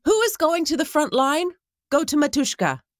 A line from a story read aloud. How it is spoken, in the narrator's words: asked loudly